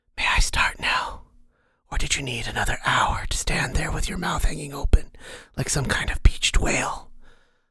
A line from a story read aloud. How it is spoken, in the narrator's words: A whispering, cheery voice asked